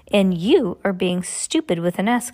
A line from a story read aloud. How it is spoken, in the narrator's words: Klaus snapped